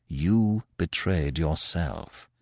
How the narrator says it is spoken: said Manfred quietly

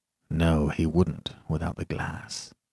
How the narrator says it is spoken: murmured

